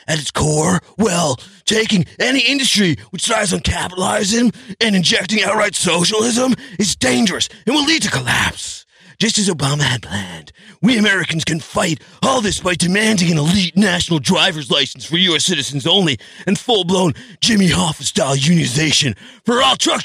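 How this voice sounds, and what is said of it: Imitates another person's voice, shifting accent. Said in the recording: “your accent changed like four times ... I was trying to do Alex Jones, but I don't know if I captured”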